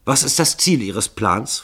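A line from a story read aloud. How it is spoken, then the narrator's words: Hasty question. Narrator (German): fragte Starkington hastig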